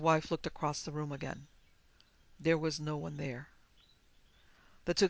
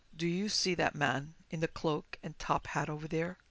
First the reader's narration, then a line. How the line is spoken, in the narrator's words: In a hoarse voice, Weber whispered to her